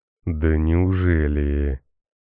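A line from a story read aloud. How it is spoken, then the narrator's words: Booming bass voice. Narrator (Russian): Прогремел чей-то бас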